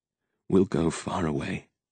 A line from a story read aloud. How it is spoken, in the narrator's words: I whispered in her ear